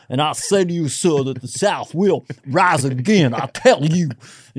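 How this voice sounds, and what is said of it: Put-on Southern gentleman accent. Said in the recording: “Tennessee gentleman ... I love Southern accents ... this hypnotizes women”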